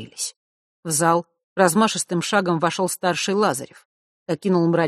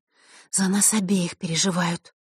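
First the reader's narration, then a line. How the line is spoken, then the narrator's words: Quiet reply. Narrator (Russian): так же тихо ответила Василиса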